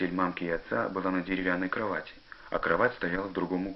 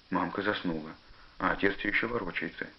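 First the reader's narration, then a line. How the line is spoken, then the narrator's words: Quiet. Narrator (Russian): тихо сказал Костя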